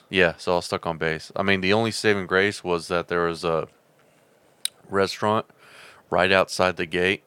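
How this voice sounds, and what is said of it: Southern rural twang accent. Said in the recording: “His accent was the only one I recognized. That's because he's got that hick ass redneck... I still got some of that twang... That twang.”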